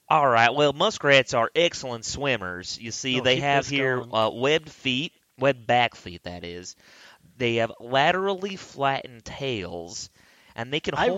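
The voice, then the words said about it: Put-on West Virginia accent. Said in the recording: “I was doing my West Virginia voice ... a West Virginia hick talking scientifically”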